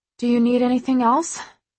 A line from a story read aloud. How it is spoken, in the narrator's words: She asks breathlessly